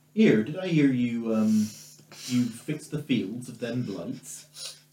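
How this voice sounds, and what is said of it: Put-on stereotypical Somerset accent. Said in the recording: “From Somerset. ... with a slightly stereotypical accent.”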